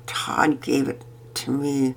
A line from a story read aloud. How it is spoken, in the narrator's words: Pearson muttered